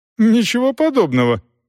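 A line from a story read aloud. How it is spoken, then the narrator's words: Indignant. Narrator (Russian): возмущенно ответила Дорс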